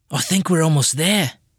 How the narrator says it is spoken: Andinus whispered

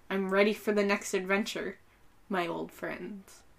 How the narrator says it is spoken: Stephen Colbert chuckled, took a sip of his beverage, and whispered

